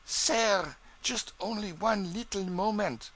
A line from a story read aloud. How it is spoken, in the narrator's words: pleadingly